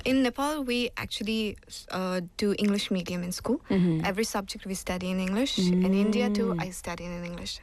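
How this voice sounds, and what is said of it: Indian English accent with British twang. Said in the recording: “You sound very British... Parts of your accent, I'm like, oh, it's very British... I thought I sound like Indian... a little bit, yeah... I can hear like lots of British twang in the words”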